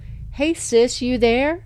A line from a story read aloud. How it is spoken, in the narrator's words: called out